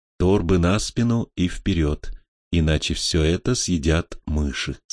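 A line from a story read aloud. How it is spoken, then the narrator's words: Plain, old man. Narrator (Russian): сказал старец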